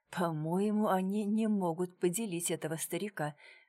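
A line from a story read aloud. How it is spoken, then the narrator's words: Muttered. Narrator (Russian): пробормотал Дронго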